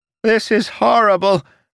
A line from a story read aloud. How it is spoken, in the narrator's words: Sylas screamed